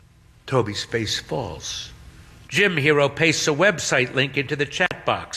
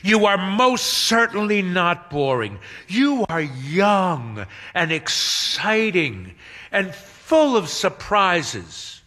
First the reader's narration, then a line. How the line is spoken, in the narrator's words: Hermione exclaims